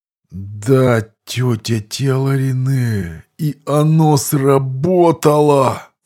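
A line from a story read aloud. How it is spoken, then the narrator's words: Groan, then nervous laugh. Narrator (Russian): Простонал гном, а потом нервно засмеялся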